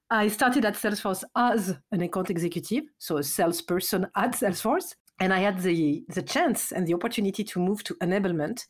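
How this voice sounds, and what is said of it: French accent. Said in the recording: “As you can hear at my voice, or maybe by my accent, I'm French.”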